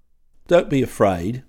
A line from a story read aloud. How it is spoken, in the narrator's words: called out the Rolling Stone